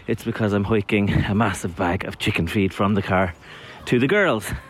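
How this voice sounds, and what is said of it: Slightly out of breath. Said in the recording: “if I'm a bit out of breath”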